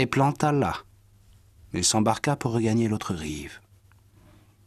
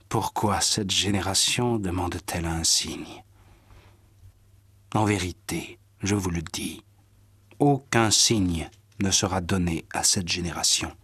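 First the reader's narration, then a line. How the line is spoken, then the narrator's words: Sighing. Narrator (French): Jésus soupira et dit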